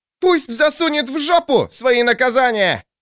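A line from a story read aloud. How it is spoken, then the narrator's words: Barked. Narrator (Russian): рявкнула судья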